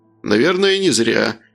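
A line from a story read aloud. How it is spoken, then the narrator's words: Snorting. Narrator (Russian): Хмыкнул Алексей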